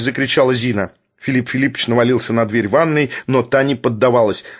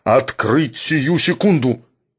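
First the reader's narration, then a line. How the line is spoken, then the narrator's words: Muffled wild roar. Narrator (Russian): дикий голос Шарикова глухо проревел за дверью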